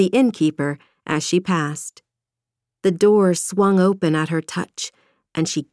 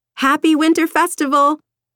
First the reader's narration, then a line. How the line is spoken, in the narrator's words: shouting